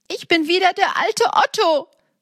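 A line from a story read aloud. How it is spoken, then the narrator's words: Happy exclamation. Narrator (German): rief er glücklich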